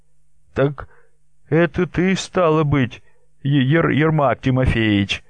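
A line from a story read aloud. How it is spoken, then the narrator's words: Frightened merchant asking. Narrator (Russian): спросил купец испуганно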